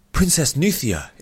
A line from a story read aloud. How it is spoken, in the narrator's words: exclaimed a female voice